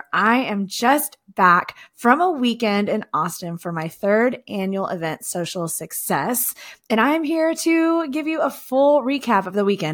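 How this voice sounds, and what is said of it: Voice sounding a little off. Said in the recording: “my voice sounds a little bit off. You know, it's just a lot of talking and a lot of fun this weekend. So I'm kind of in recovery mode.”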